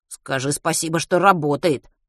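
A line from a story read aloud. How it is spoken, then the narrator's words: Male grumbling. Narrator (Russian): проворчал он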